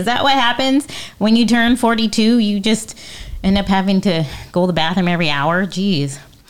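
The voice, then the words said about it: Out of breath. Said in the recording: “today I'm all out of breath... Because I'm all out of breath.”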